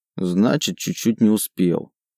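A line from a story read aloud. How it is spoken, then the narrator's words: Grumbling. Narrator (Russian): проворчал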